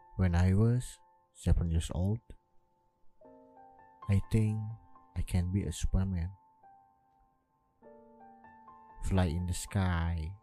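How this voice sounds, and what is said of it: Non-native English accent. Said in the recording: “my language or my accent so so bad”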